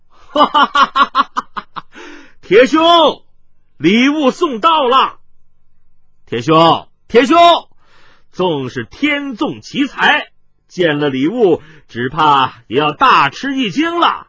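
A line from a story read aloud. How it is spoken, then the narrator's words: Loud laughter from outside. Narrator (Chinese): 突听外面大笑道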